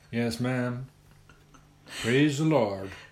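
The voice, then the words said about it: Put-on evangelical preacher accent. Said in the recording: “one of these evangelical ministers that bang the table and... I can do the accent, I reckon.”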